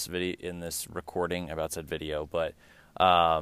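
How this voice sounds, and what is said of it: Usual voice. Nothing is said of it.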